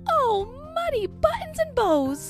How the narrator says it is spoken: cries Minnie

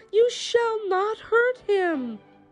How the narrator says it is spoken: cried

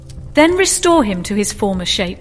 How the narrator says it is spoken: cried the Sultan

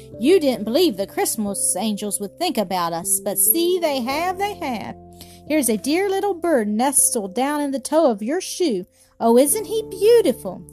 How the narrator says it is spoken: exclaimed

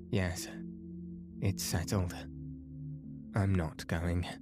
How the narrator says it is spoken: she said

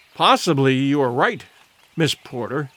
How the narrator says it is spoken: he said

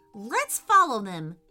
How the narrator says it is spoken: cried Ryan, running after the arrows

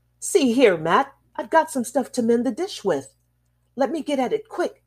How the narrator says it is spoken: he cried

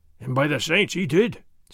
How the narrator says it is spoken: Sergeant Gonzalez growled

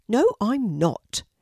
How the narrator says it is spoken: replied Kelti rather crossly

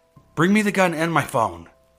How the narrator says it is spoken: yelled very loudly so whoever was out there could hear me

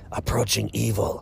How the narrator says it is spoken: One of them looked at me wide-eyed and hissed

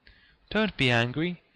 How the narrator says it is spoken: he pleaded

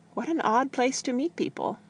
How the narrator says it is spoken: she said nervously

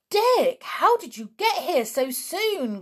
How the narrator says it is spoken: cried Julian

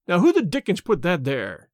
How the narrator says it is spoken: he cried angrily

